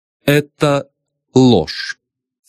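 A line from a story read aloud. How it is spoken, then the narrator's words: Calm. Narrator (Russian): спокойно ответила Филомена Платоновна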